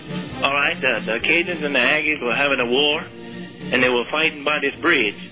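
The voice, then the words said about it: Louisiana accent. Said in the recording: “he's from Louisiana... It's the accent.”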